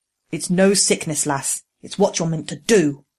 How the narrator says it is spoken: the voice said angrily

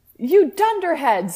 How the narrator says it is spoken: screamed Dumbledore wisely

